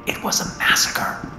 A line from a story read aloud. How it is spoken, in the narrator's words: I whispered